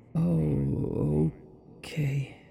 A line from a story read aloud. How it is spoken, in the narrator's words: stammered